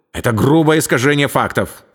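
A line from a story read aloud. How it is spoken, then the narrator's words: Sharp blurt. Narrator (Russian): резко выпалил он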